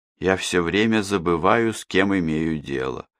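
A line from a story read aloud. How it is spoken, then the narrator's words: Gloomy. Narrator (Russian): мрачно сказала Эмма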